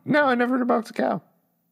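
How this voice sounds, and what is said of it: Voice suddenly goes high-pitched. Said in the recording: “Why did my voice go so high?”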